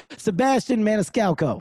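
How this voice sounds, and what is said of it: Put-on Italian accent. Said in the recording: “That was my Italian accent. ... So I'll say it regular.”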